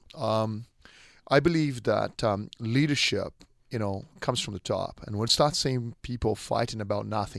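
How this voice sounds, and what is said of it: Non-Australian foreign accent. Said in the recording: “I still have an accent, but I'm 100% Aussie-fied”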